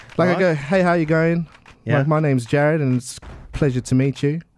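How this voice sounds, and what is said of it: Put-on Australian accent. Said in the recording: “can you do the Australian accent?”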